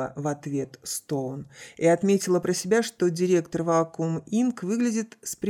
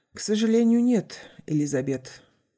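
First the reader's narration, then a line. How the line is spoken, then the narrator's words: Sighing. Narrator (Russian): вздохнул Райли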